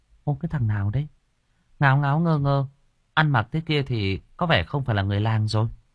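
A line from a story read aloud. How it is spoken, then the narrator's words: Muttered. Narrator (Vietnamese): Chi lẩm bẩm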